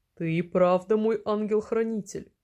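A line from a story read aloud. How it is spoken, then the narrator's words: Kind chuckle. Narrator (Russian): по-доброму хмыкнул Саша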